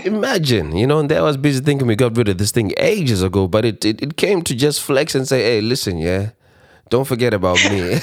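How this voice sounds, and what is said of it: Slightly congested, flu-affected voice. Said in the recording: “You might hear my voice is a bit fluey. That's because this week, right, COVID knocked me the hell out.”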